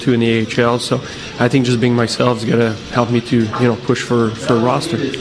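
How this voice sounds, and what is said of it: French accent. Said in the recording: “Do I sense a French accent there?”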